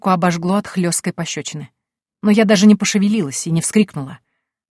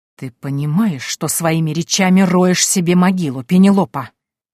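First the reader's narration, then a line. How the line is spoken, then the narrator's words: Menacing snakelike hiss. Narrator (Russian): Голос короля стал похож на шипение большой змеи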